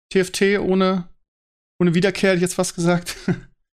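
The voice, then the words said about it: Deliberately sad-sounding voice. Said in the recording (German): “Du klingst so, du klingst so traurig, man möchte dich in den Arm nehmen. ... Das war absichtlich. ... Ich habe gerade trauriger geredet”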